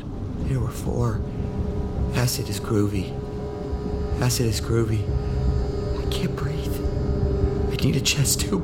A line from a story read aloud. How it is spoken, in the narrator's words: He mumbled